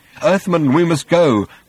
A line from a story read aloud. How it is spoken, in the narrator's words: said Slutty Bartfast nervously